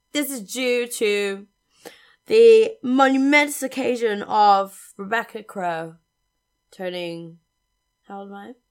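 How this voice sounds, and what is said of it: Slightly hoarse voice. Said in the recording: “I am slightly hoarse. Nay, in the voice.”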